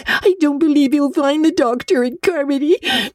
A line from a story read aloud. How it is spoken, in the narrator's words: sobbed Diana